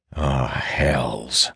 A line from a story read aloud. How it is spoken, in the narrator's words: growl